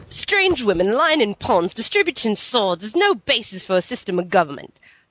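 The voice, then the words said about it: Put-on accent, done well. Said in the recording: “that's my wonderful accent. ... He was very good. that's very good”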